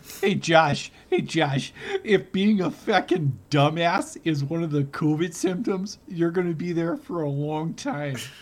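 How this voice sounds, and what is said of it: Put-on Wisconsin accent. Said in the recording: “Where did this accent come from? ... This is Wisconsin”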